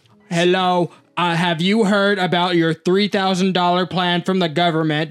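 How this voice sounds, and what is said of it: Mock AI-generated celebrity ad voice. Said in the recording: “in a fucking AI voice of, like, Steve Harvey or Joe Rogan or, like, Obama”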